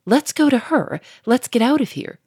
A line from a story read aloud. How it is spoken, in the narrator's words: cried Victor more anxiously